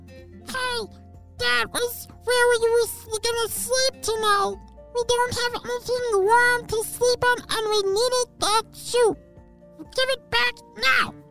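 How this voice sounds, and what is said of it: Angry mouse character voice. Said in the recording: “that is a very angry mouse.”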